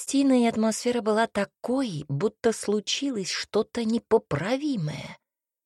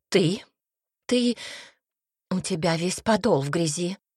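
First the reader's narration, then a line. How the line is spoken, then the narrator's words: Disapproving breathy remark. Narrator (Russian): С осуждением выдохнула тетя Агаста, приложив платочек к глазам, добавила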